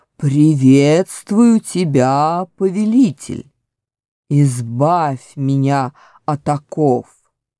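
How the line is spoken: Deep bass voice. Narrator (Russian): Голова пробасила

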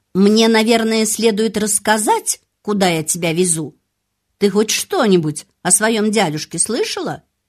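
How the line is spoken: Sharp, impatient. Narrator (Russian): экономка не выдержала и резко сказала

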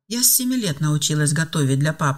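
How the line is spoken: Calm reply, young woman. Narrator (Russian): спокойно ответила девушка

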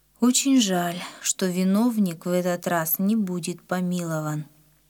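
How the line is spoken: Sad. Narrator (Russian): Папа печально сказал

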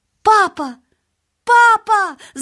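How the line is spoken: Shouting. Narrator (Russian): закричал он

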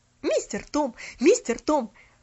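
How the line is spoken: Frantic shouting. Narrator (Russian): Вытаращив на него совершенно безумные глаза, кричала она

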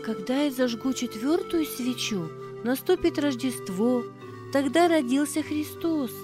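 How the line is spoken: Plain. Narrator (Russian): сказала Тина

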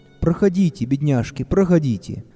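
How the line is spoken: Kind old man inviting. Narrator (Russian): ласково пригласил детей старик с большой белой бородой

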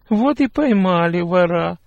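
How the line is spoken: Snide laugh. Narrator (Russian): ехидно засмеялась Герта

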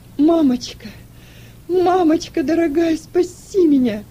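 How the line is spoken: Sobbing girl. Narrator (Russian): рыдала девочка

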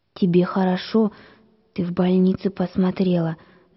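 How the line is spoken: Envious whisper. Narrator (Russian): завистью прошептала Галя

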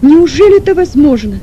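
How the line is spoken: Sick man, near shout. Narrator (Russian): почти с криком произнес больной

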